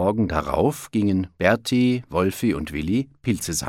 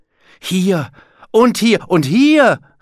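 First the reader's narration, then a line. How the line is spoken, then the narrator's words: Shouted. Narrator (German): rief Berti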